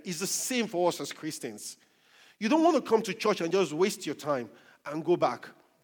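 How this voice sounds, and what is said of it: Noticeable accent. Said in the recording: “I've got a beautiful accent”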